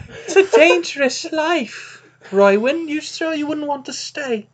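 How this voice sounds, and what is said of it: Put-on accent that drifts around. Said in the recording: “wandering accent”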